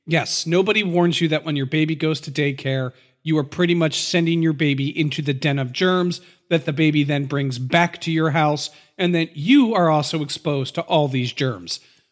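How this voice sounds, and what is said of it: Congested voice from a head cold. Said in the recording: “I have a little bit of a non-COVID head cold, so you might hear that in my voice. I might have to clear my throat a little bit more.”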